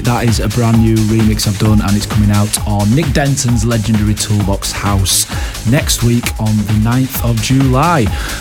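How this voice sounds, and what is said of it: Hoarse, croaky voice. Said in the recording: “I'm a little bit croaky as I'm talking now ... I sound a little bit hoarse ... the croakiness”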